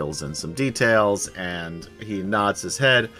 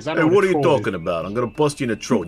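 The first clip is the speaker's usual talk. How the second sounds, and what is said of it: Put-on Brooklyn accent. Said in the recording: “Give us a Brooklyn accent”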